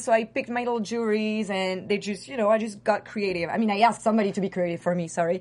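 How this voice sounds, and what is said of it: French accent. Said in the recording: “your French accent, by the way. It's very sexy.”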